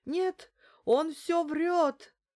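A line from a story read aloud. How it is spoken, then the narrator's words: Despairing exclamation. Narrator (Russian): с тоской обреченного человека воскликнул Хайрулин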